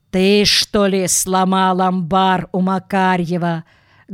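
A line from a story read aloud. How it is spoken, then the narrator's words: Menacing question. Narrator (Russian): грозно спросил исправник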